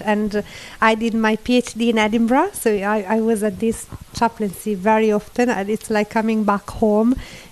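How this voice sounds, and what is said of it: Italian accent. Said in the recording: “I'm from Italy, as you might gather from my accent”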